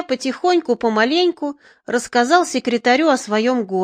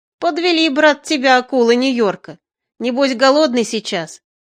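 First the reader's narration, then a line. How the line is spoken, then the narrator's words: Smiling, then laughing. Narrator (Russian): Сочувственно покачивая головой, секретарь улыбнулся, а потом, рассмеявшись, сказал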